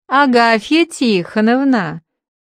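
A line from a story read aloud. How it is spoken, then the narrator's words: Clear, honeyed drawl after pause. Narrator (Russian): Он чуточку помолчал и уже чистым голосом медово протянул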